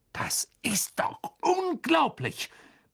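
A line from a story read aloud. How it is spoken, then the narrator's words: Bellowing in pain. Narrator (German): brüllte Ron, als einer der verbliebenen Wichtel ihn ins Ohr biss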